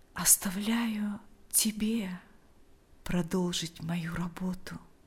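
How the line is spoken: Quiet. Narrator (Russian): тихо произнес он

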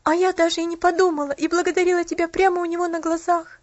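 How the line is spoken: Sobbing. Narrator (Russian): всхлипнула Поллианна

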